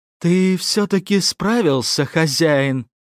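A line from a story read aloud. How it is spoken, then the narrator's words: Relieved sigh. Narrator (Russian): вздохнув облегченно, произнесла Тоня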